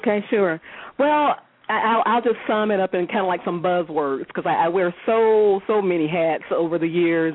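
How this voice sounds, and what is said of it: Southern American accent. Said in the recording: “sexy voice that she has ... With my southern accent. ... Well, we love that southern accent. I just like the way you pronounce those words.”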